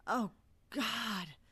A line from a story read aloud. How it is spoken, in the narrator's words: she whimpered